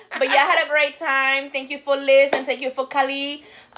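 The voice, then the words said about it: Speaks with a noticeable accent. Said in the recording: “Don't mind my accent.”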